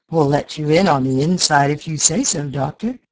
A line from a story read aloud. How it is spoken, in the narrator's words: he laughed